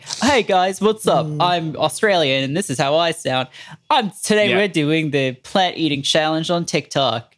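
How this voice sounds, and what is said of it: Put-on Australian accent. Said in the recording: “that was a good impression. ... That was really good. ... That sounded like everyone I spoke to”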